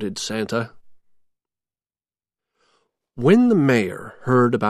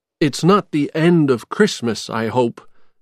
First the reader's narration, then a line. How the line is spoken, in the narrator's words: Jack said